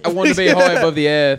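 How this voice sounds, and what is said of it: Put-on British accent. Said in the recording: “He's British. So fix your accent.”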